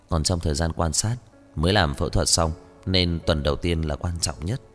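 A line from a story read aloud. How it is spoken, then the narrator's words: Soft worried voice. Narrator (Vietnamese): Nghiêm Thiếu Thần không thể không sầu lo, anh nhíu mày khẽ nói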